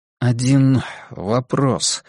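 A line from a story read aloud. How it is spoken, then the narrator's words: Dry, hopeless tone. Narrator (Russian): наконец сказал я, сухо, тоном лишенным надежды и обаяния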